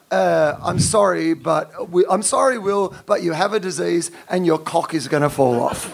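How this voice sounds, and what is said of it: Soothing Edinburgh Scottish accent. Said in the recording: “I quite like the voice. I think it sounds quite sexy ... You have a sexy voice, though. You have like a soothing Edinburgh voice.”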